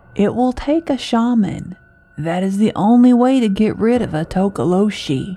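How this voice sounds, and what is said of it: Raspy old woman's voice. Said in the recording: “in a raspy voice”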